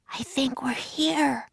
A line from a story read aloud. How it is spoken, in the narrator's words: whispered Annie